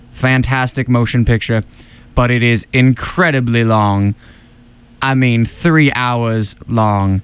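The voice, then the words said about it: Silky smooth Morgan Freeman impression. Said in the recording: “as Morgan Freeman, I really try to keep my voice as silky smooth as possible”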